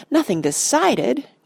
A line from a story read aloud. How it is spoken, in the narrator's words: cried Pippin